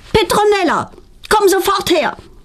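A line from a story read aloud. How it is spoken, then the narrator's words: Mother calling loudly. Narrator (German): ruft ihre Mutter laut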